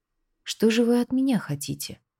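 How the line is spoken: Quiet question. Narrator (Russian): тихо спросил маг

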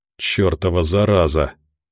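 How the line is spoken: Annoyed, through gritted teeth. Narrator (Russian): досадно процедил

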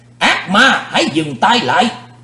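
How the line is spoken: Angry shout. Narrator (Vietnamese): Sư diện quái ma tức giận

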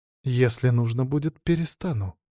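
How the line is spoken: Calm. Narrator (Russian): спокойно ответила она

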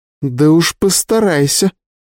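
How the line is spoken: Through clenched teeth. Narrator (Russian): процедила она

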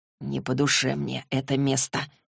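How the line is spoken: Whisper. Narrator (Russian): прошептал он

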